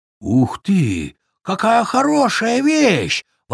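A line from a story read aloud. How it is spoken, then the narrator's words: Excited exclamation. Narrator (Russian): воскликнул бобер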